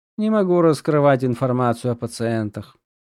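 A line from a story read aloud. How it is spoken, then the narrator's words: Bored tone. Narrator (Russian): скучающим тоном сказал юноша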